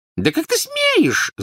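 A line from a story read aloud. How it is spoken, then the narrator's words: Squeak. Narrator (Russian): запищала тетя Петунья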